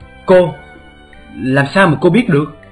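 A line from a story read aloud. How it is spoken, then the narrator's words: Astonished question. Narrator (Vietnamese): Trương Tiểu Phàm hỏi bằng giọng vô cùng kinh ngạc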